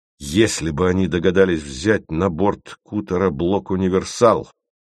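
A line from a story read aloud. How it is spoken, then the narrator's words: Plain. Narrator (Russian): сказал Вараксин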